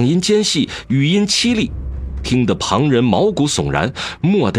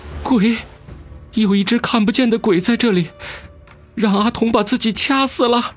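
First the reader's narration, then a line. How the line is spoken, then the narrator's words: Trembling voice. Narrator (Chinese): 阿丁颤声道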